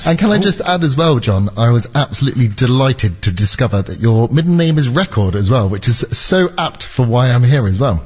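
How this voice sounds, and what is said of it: Noticeable non-local accent. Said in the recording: “I love the accent, which makes it even more mysterious”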